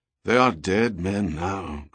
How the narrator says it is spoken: Crozier muttered

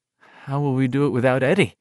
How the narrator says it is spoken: Richie murmured

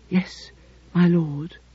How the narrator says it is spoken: she whispered

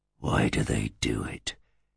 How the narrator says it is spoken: whispered Horeb

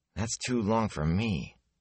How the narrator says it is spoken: Ewan muttered

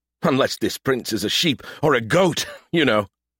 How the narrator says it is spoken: chuckled

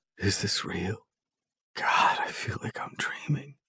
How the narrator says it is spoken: whispers

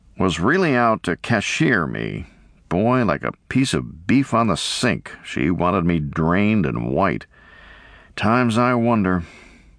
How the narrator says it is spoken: he announced bitterly

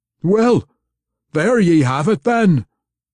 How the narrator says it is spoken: Puente roared in Wulfgar's face

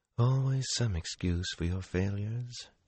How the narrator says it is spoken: she whispered into her punch, again too softly for him to have heard without Sidene

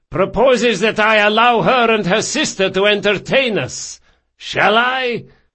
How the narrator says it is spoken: he shouted

